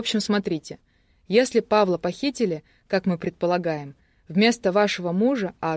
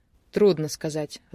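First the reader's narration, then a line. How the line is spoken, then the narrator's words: Sighing. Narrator (Russian): вздохнул Карпухин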